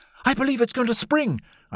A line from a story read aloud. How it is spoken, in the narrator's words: cried